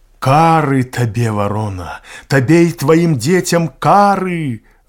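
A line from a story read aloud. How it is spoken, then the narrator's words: Desperate owl's cry. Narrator (Belarusian): выгукнула ў адчаі сава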